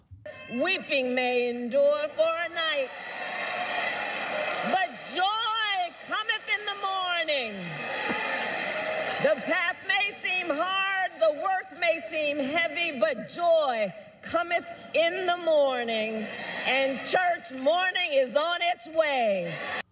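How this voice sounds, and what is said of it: Fake pastor preaching accent. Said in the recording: “We have we have a new accent from Kamala this week. ... this is the full fake pastor accent.”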